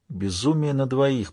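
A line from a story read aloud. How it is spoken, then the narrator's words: Whisper. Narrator (Russian): прошептал Джей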